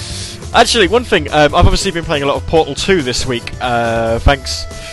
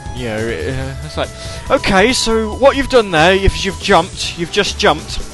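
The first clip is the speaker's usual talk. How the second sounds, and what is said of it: Put-on West Country English accent. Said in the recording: “using Wheatley ... to kind of perfect this sort of West Country accent.”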